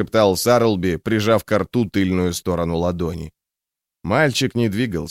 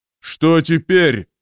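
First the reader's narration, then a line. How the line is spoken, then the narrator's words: Shouted. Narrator (Russian): прокричал Броуд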